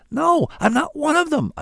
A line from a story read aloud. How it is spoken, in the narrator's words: cried, feeling sure I was about to wake up back on that bus in traffic